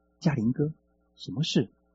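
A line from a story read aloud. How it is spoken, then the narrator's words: Nervous quiet question. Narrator (Chinese): 忐忑不安地 小声问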